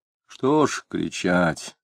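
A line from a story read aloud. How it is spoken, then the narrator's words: Sad sighing question. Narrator (Russian): Печально, вздыхая тяжко, спросил адвокат Вишняков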